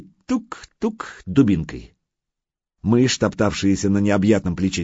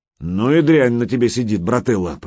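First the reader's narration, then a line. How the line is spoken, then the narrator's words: Grumbling. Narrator (Russian): проворчал Гучко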